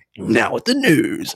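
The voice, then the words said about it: Announcer voice. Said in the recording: “Announcer voice.”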